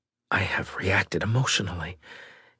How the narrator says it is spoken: he whispered to himself, surprised

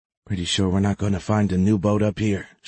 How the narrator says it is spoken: she whispered

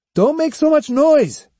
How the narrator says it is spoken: he shouted

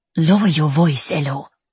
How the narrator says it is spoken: Sister says sharply

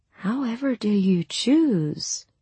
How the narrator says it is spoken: I breathed faintly

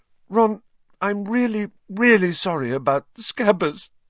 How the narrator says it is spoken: she sobbed

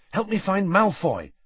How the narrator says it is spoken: said Harry urgently

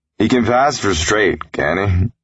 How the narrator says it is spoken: laughed

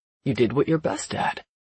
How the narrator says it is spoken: he says, smiling grimly

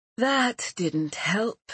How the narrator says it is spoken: Merrin sighed out

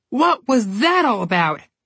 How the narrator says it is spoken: Connor yelled

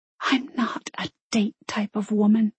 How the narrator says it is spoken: she whispered back

